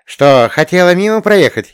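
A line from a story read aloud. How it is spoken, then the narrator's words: Giggling. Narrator (Russian): хихикнула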